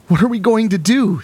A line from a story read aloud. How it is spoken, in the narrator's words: Sienna cries